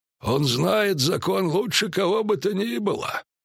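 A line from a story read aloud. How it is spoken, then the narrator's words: Hoarse. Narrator (Russian): хрипло сказал Мышавур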